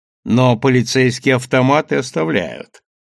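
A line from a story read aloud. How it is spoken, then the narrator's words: Laughing. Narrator (Russian): рассмеялся Чезаре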